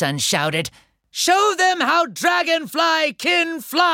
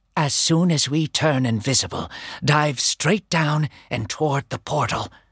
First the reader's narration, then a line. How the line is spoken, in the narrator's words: Flower Sun whispered